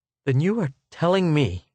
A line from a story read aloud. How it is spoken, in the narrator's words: he gasped